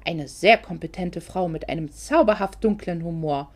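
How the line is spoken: Cheerful grumble. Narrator (German): brummte gut gelaunt

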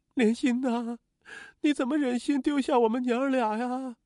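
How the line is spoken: Desperate wailing. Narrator (Chinese): 刘玉霞 绝地的哀嚎起来，拼命的哭喊着

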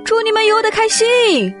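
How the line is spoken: Shouting. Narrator (Chinese): 狼们喊道

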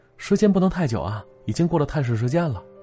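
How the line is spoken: Soft-spoken. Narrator (Chinese): 护士轻声说着

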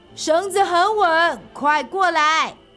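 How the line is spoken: Loud shout. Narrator (Chinese): 阿飞朝着对面大喊

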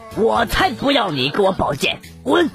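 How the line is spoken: Cold sneering laugh. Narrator (Chinese): 张无忌冷冷笑道

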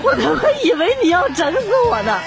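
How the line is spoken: Crying. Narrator (Chinese): 路虎司机都哭了，跟那个女司机说

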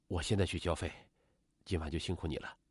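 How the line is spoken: Covering up, evasive. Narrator (Chinese): 李勇立刻停止嘟囔，掩饰道

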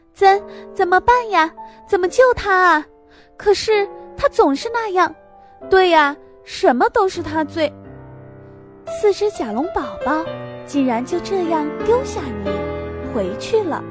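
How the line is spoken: Shouting. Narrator (Chinese): 你大叫道

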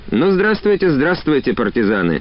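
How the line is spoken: Cheerful. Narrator (Russian): заговорил весело

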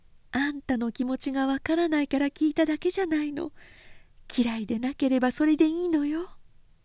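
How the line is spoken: Tearful, holding back sobs. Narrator (Japanese): おせんは目を拭きながら涙はこぼしたが泣き声は出さなかった

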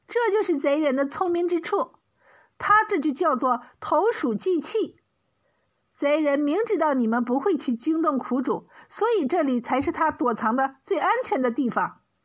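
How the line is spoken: Smiling. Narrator (Chinese): 蒋世全笑了笑说

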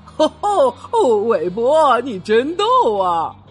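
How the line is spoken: Laughing. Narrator (Chinese): 大象们都笑了，他们说

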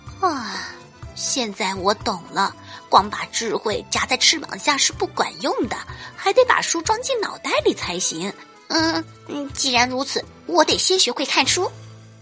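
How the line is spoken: Sighing. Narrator (Chinese): 他叹了口气说

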